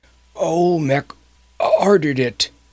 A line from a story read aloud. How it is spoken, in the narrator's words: gasped the dying man